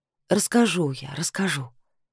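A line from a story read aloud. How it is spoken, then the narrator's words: Quiet. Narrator (Russian): сказала тихо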